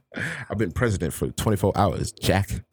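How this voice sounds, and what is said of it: Imitates another person's voice. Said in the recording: “do a Biden impression”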